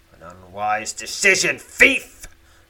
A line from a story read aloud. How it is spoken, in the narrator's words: growls Lozok